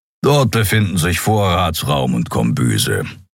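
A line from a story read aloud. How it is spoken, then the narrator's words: Grumbling. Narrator (German): brummte Keero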